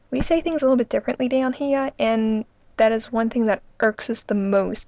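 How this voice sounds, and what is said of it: New Orleans Yat accent. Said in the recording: “Nobody has done our type of accent yet that's called a Yat accent”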